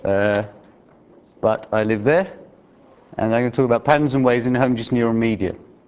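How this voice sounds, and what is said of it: Non-local accent. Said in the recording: “As you can tell, I'm not from Utah, from my accent”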